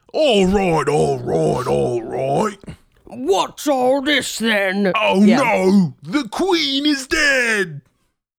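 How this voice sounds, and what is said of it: Put-on British accent. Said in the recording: “the trick to doing a British accent for me, by the way, is to imagine a bulldog with bad teeth.”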